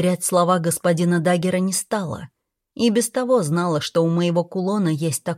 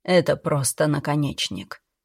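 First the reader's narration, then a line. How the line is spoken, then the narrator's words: Confiding whisper. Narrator (Russian): доверительно шепнул мужчина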